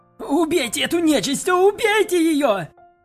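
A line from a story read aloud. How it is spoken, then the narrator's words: Mercenary shouting. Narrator (Russian): кричал наемник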